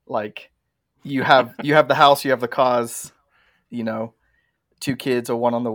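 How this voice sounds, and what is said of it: English accent. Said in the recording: “As you can probably tell by my accent, I'm not from the Denver, Colorado area originally ... Born in England”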